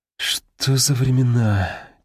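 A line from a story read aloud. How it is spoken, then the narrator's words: Heavy sigh. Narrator (Russian): тяжело вздохнул Стулов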